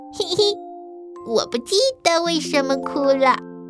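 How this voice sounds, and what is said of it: Small quiet chirping voice. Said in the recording (Chinese): “小声叽叽道”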